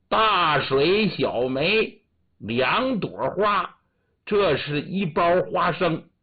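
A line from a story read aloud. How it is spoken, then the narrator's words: Proud loud recitation. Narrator (Chinese): 李二叔挺得意 高声念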